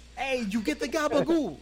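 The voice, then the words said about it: Put-on Sopranos-style Italian-American accent. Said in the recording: “they look like they stumbled off the Sopranos ... that classic Argentinian accent.”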